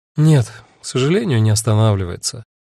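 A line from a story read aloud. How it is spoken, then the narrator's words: Sighed. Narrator (Russian): вздохнула Агата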